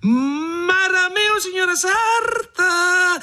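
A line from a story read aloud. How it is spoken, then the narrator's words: Shouting. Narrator (Italian): gridò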